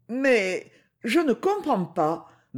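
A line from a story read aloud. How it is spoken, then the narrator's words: Stammering young girl. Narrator (French): balbutia la jeune fille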